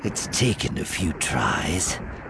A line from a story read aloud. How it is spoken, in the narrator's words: she murmured